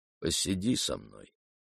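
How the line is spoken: Quiet. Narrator (Russian): тихо сказал Парфен

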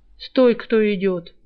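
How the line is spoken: Lazy call. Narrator (Russian): лениво окликнул стражник

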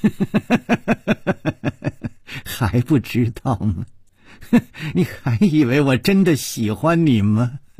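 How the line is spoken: Laughing, venomous, murderous woman. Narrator (Chinese): 他不停地笑，他的脸上却带着恶魔一样的妖气，那美丽的眼睛里更是充满了怨毒和杀机

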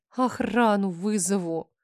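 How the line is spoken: Thin wheeze. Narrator (Russian): Тонко просипела

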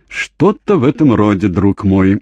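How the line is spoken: Laughing. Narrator (Russian): рассмеялся Джейми

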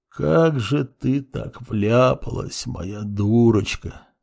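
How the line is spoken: Muttering father. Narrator (Russian): бормотал отец

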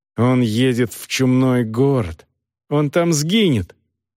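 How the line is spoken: Angry speech. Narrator (Russian): зло сказала Агнес

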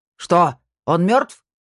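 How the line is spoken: Shouted. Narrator (Russian): крикнул Снайдер

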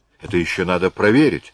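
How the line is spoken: Exclamation. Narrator (Russian): воскликнула Марианна

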